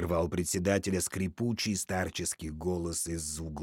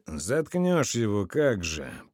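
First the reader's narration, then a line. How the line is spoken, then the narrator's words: Grumbled, stoker. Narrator (Russian): проворчал истопник дядя Вася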